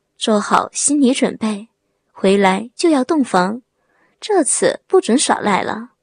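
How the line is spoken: Soft whisper in ear. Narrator (Chinese): 张碧在他左耳边轻声的说

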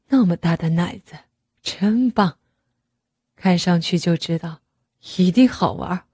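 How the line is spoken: Murmuring. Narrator (Chinese): 他还喃喃地说道

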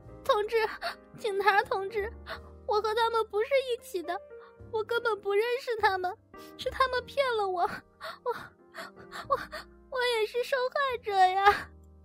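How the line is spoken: Panicked sobbing plea. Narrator (Chinese): 艳丽更是慌了神，连声哭道

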